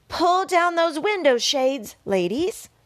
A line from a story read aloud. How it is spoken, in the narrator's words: Charlotte yelled